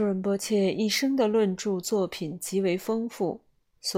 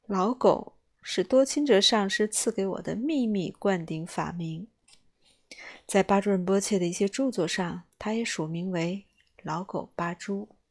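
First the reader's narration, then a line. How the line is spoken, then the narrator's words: Joking. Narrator (Chinese): 巴珠仁波切开玩笑地说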